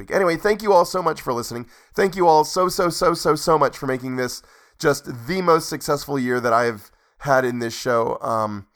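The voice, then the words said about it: Strained, worn-out voice. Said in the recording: “my voice is already starting to go bad just on that short reading”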